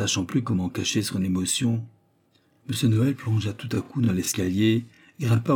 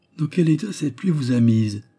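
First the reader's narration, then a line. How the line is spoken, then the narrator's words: Exclaiming. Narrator (French): s'écria-t-il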